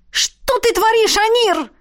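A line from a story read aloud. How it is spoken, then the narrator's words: Yelled. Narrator (Russian): заорала я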